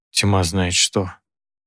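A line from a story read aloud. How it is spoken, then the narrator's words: Weary sighing. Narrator (Russian): произнес я устало, тяжело вздохнул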